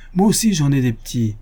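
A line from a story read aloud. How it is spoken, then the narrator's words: Housewife shouting. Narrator (French): cria la ménagère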